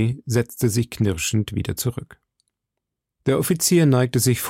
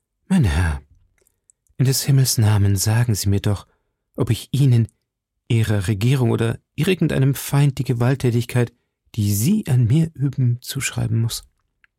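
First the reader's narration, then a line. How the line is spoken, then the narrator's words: Sighing voice. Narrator (German): sagte mit seufzender Stimme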